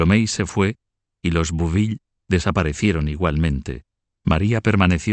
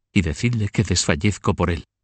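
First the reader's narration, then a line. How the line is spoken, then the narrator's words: Murmuring in ear. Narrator (Spanish): le murmuró al oído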